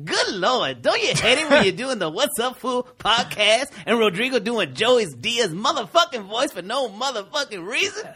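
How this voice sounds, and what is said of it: Imitates another person's voice. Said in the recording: “impersonation, right, bro? Chris Tucker? ... it's Chris Rock.”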